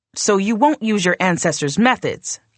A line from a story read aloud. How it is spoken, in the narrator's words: I snapped